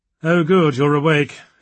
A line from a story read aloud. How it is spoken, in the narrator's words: sighed